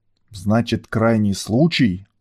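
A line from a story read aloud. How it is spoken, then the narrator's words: Angry growl. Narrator (Russian): уже закипая прорычал Лёлик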